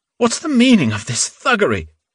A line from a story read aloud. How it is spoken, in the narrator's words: Innocenti cried feebly